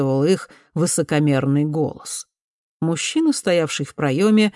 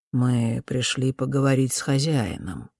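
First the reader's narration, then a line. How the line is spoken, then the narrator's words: Calm. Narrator (Russian): спокойно сказал Фулькер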